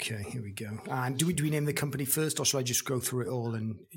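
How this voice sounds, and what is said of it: Usual voice. Nothing is said of it.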